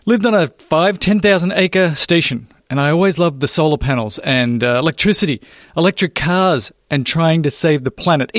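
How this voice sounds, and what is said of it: Australian accent. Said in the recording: “my accent might give it away just a tad ... I'm actually from Australia”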